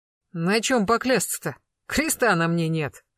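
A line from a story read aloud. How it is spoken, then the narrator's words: Snorted. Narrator (Russian): хмыкнул Восьмибратов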